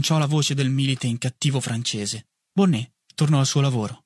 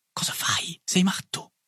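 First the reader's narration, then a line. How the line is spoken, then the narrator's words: Whispered. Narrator (Italian): mi sussurrò Boulanger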